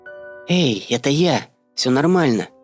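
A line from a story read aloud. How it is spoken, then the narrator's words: Quiet. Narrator (Russian): тихо сказала Танька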